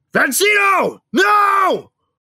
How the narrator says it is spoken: I screamed out

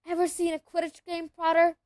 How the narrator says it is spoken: he asked excitedly

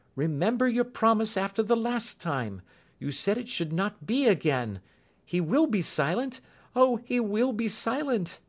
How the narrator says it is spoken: she cried in English

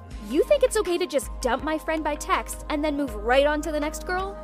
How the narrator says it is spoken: One of the girls came right up to David and yelled out

